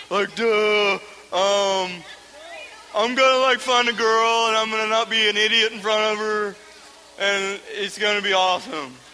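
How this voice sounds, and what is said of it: Dopey guy character voice. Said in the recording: “How about a guy impression? ... Was that a better impersonation for a guy?”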